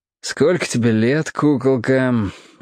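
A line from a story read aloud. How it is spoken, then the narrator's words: Lazy question. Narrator (Russian): лениво спросил он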